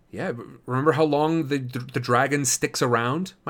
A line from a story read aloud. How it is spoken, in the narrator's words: My stutter's especially bad today